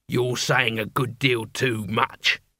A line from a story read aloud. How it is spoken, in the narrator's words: growled the leader